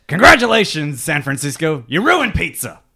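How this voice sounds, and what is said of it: Angry, pissed-off impression voice. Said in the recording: “Just sound like a pissed off. ... Plays angry. ... That was pretty good. ... That was better than mine.”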